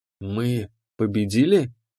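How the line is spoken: Hoarse, strained. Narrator (Russian): хрипло выдавил я

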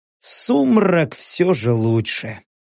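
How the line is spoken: Sighing. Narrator (Russian): вздохнул я

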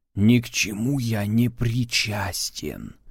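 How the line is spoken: Whispered. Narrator (Russian): прошептал Валдаев

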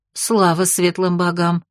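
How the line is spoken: Relieved exhale. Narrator (Russian): С облегчением выдохнула Октябрина

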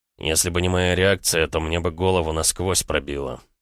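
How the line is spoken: Hateful, through gritted teeth. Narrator (Russian): процедил Роман с ненавистью

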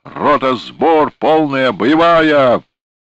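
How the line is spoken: Yelling at full force. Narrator (Russian): набрал в легкие побольше воздуха и, что было силы, заорал

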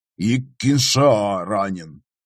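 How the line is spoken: Displeased grumble. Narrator (Russian): недовольно пробурчал Оу Готтер

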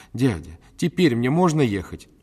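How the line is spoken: Pleading. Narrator (Russian): взмолилась

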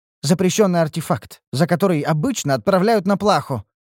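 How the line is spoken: Wry snort. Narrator (Russian): хмыкнул Шальдур

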